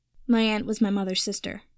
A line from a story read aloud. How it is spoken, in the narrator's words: Harry said flatly